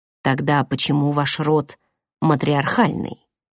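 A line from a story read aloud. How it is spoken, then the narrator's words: Soft question. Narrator (Russian): спросил Дар мягко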